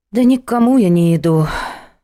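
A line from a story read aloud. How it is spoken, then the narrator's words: Sighing. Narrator (Russian): вздохнула Надя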